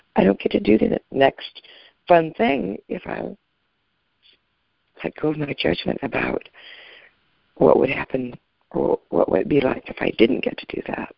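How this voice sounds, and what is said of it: Hoarse voice. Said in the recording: “Sorry, I'm so hoarse. I haven't been vertical yet.”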